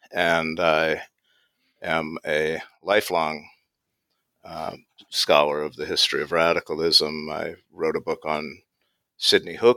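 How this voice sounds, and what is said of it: American English accent. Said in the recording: “I can tell by my accent I'm American”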